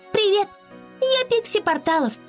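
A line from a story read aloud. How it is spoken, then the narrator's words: Tiny squeaky voice. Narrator (Russian): пропищала она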